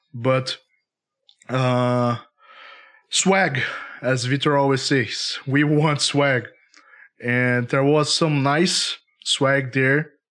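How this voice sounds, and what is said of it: Slightly hoarse, sick-sounding voice. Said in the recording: “I'm still fighting a cold. ... my voice is not 100%.”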